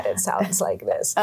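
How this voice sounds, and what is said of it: Creaky vocal fry voice. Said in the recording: “vocal fry ... Vocal fry is when we're lazy in the way that we breathe and speak, and so we close off the air ... It physically takes the air out of your words”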